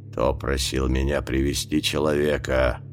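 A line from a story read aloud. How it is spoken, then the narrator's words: Hiss. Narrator (Russian): прошипел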